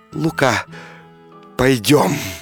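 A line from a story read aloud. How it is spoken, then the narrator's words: Tender soft whisper. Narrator (Russian): купчиха прошептала нежно, тихо, к нему склонясь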